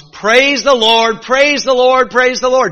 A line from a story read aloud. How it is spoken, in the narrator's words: she started shouting at the top of her lungs